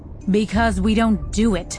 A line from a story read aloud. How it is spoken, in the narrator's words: she snapped